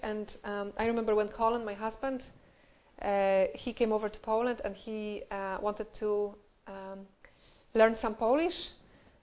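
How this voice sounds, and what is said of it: Polish accent in English. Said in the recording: “I'm not from Northern Ireland. I come from Poland. And English is not my first language ... when you speak with a different accent”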